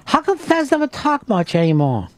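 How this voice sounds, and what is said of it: Put-on Chinese accent. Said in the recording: “that was a Chinese accent... I shouldn't do that accent anymore”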